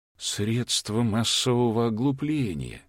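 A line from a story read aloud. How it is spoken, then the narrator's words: Elderly man muttering. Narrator (Russian): пробормотал пожилой мужчина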